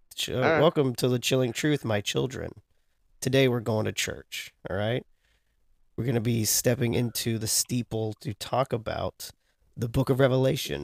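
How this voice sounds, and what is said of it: Sick, nasal congested voice. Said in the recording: “I'm very sick. So, my voice is going to sound a little different. I'll probably be clear my throat every once in a while ... you sound ridiculous ... you sound nasally.”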